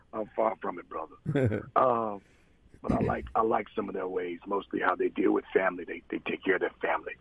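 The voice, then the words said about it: Rough, messed-up mafia-like voice. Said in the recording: “my voice is messed up... Sound like the mafia... I got to do something about my voice”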